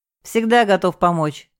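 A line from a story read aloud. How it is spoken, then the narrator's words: Wry snort. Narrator (Russian): хмыкнул он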